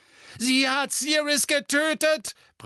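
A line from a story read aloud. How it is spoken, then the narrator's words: Roared. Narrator (German): brüllte Harry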